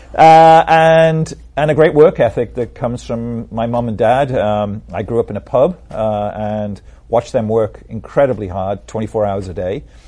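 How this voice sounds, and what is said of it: British accent. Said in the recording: “I have a British accent”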